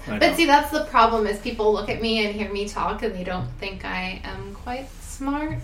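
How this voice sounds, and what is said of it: Valley Girl voice. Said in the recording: “So your Valley Girl voice,”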